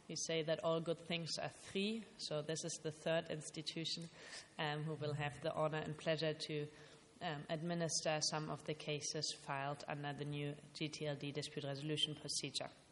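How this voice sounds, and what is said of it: German accent. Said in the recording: “I'm originally from Germany, as you will be able to tell both from my name and my accent.”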